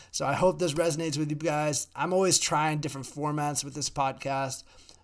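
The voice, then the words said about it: Slightly hoarse voice. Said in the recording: “My voice is getting a little hoarse,”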